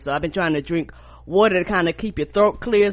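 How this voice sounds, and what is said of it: Congested, unusually deep voice. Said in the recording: “that's because I'm fucking stopped up ... you have a huge fluctuation in your voice ... my voice has been all over the place ... my voice is already deeper”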